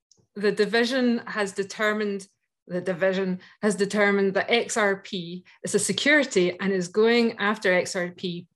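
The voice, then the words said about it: Speaks with a noticeable accent. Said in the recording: “It's my accent. ... She has an accent”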